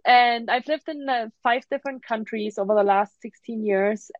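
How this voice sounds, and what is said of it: German accent. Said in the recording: “I'm originally from Germany. That's why I have an accent.”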